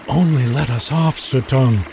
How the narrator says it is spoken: they begged

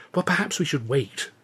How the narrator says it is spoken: Luscombe said anxiously

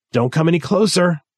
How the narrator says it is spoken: Gary said, his voice breaking

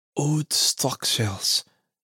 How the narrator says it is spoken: Father Rocher muttered

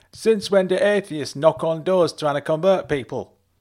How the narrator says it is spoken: shouted back

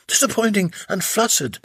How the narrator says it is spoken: laughed Slavia

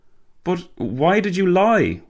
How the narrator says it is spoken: Walter gasped

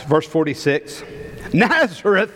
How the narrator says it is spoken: exclaimed Nathanael

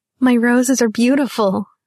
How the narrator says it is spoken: she laughed

